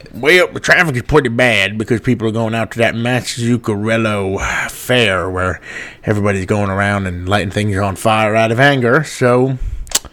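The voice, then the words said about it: Bad put-on Cajun accent. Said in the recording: “Your Cajun accent is atrocious.”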